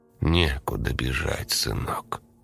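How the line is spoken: Soft, almost tender. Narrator (Russian): сказал он мягко, почти ласково

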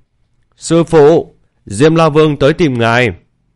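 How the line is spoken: Loud call. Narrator (Vietnamese): Bạch Kiểu Thần đã lớn tiếng kêu lên

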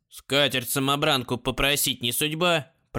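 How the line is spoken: Grumbling. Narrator (Russian): проворчал Посвист

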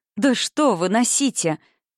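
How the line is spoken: Exclaiming. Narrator (Russian): воскликнула Марта

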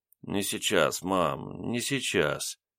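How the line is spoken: Mumbling aloud. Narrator (Russian): вслух бормотал

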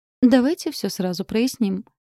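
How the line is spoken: Calm. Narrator (Russian): спокойно произнес Лайон

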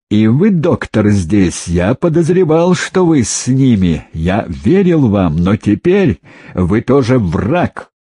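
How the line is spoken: Wild laughter. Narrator (Russian): Фомин дико засмеялся

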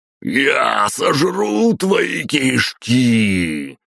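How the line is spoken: Roaring, terrifying voice. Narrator (Russian): проревел страшным голосом Батуми

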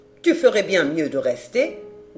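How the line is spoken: Grumbling. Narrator (French): grommela Brigitte

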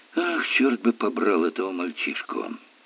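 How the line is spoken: Muttering. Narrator (Russian): пробормотал инспектор

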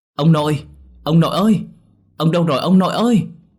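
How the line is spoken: Shouting. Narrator (Vietnamese): Tôi hét lên

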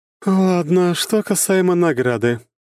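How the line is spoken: Sighing. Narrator (Russian): вздохнув, продолжила княгиня

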